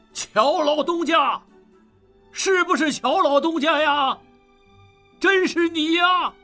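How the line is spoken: Overjoyed loud shout. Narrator (Chinese): 大喜过望，高声喊道

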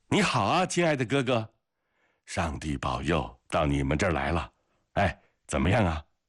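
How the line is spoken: Excited joyful cry. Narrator (Chinese): 格里高里笑着，高兴激动地叫起来

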